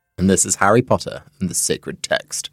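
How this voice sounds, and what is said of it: Voice sounds strangely different. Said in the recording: “My voice sounds very different because there's some sort of air bubble... I sounded like Snape.”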